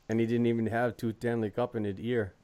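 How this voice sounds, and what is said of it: Poor put-on Quebec accent. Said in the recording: “how was my Quebec accent? Was it pretty bad? ... That tells me it's pretty bad.”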